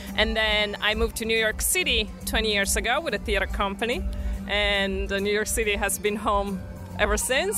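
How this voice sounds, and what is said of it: Italian-accented English. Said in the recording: “I think your accent's awesome”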